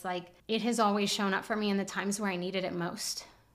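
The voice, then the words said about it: Emotional voice, cracking. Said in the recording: “hear the cracking in my voice”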